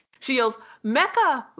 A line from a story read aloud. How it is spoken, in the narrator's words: Lena yelled as she saw the look in her eyes